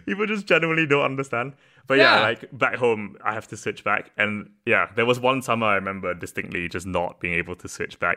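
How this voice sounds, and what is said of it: UK-style accent. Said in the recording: “this accent I use with you is the accent I use in the UK”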